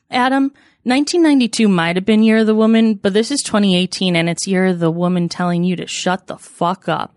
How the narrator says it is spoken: Nancy said as all the ladies laughed together in a glorious way

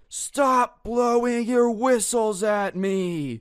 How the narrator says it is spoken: in his best, like, Aslan the Lion roar, just screams

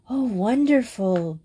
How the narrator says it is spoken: breathed Madge softly

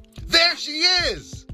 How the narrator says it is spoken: Jamal yelled

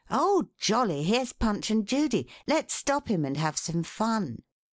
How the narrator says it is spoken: one boy exclaimed

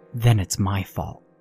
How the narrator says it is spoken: Mary whispered bitterly

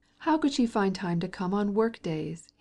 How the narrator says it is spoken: he exclaimed

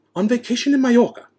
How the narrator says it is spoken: snapped Aunt Petunia

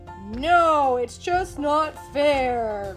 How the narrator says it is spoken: Crusher whined

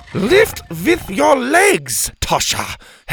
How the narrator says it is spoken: Helga barked

